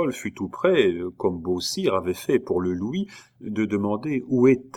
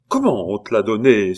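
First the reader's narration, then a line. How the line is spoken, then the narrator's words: Exclaimed, mother. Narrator (French): s'écria la mère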